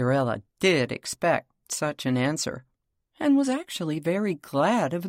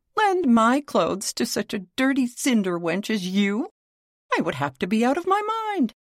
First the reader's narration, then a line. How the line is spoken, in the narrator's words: cried Miss Charlotte